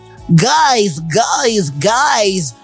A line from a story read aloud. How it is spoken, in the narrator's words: Ronald screeched joyously